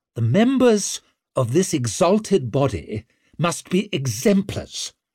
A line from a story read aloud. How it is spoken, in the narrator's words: snapped Orso, glowering at the silent lords